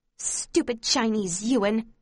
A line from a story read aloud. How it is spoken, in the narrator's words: hisses